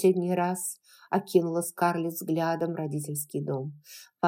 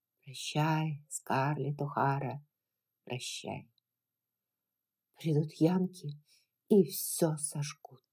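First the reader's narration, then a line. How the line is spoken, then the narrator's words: Whispering inner voice. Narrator (Russian): Все, кровная часть ее души, шептала ей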